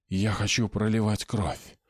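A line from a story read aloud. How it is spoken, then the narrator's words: Whispered. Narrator (Russian): прошептал он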